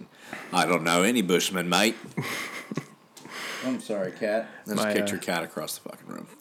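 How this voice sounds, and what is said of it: Put-on Australian accent. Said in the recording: “My wife hates that accent. ... You hate the Aussie accent?”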